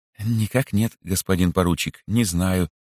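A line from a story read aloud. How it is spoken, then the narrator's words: Soft. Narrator (Russian): мягко сказал Швейк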